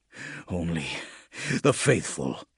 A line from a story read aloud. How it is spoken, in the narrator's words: he muttered